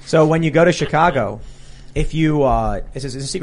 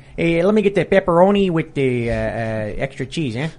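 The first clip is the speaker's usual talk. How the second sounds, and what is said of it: Put-on Chicago accent. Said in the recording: “can ... and ... please do your Chicago accent? ... if you order your pizza with Chicago accent here”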